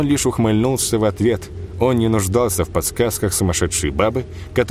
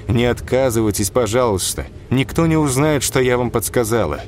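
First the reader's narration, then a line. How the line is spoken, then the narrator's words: Frightened young girl pleading. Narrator (Russian): Катерина, тоже еще молодая, почти девчонка, вздохнувшись от испуга, умоляла его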